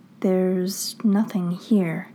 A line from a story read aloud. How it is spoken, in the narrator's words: Stiles says slowly, quietly